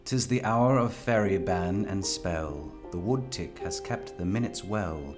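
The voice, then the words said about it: Put-on English accent, poetry reading. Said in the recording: “I'll be putting on my English accent for the reading.”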